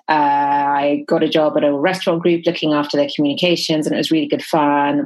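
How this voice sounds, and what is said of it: English accent. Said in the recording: “You can tell from my accent, I didn't grow up here. I grew up in England.”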